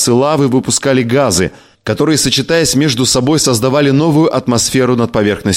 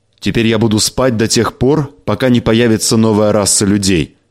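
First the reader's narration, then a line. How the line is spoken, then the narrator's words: Plain. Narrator (Russian): сказал Галасган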